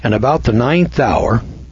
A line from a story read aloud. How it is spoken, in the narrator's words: Jesus cried with a loud voice